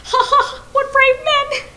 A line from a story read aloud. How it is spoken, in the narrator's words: he shouted